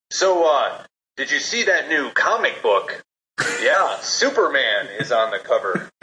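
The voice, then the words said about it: Poor impression of BDM. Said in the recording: “pretty terrible BDM impression”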